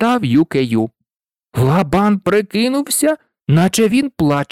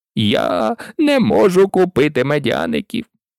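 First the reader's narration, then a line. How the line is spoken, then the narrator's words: Sobbing. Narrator (Ukrainian): схлипнув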